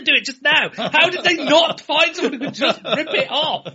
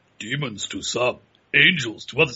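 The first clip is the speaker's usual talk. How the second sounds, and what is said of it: Pinhead impression. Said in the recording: “do a Pinhead impersonation?”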